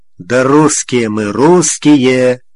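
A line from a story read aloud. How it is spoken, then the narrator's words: Choked, strangled voice. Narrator (Russian): придушенным голосом ответил Андрей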